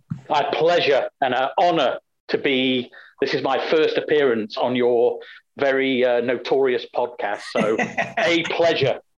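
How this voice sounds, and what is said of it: Foreign, international-sounding accent. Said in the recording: “you also bring a wonderful accent to the program. We just don't have enough of an international flavor.”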